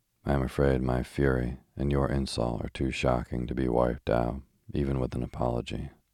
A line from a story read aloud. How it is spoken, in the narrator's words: said Gregory very calmly